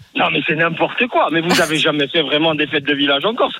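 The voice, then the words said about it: Regional French accent. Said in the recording (French): “on adore l'accent.”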